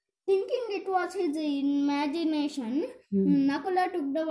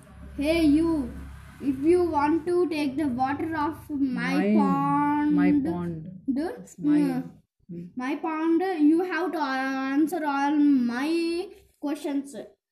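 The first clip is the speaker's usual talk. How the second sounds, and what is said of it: Weird, scary character voice. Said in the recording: “Nakula heard a weird voice. ... Weird, scary voice.”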